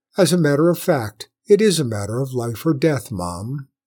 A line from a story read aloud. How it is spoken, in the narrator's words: the commander said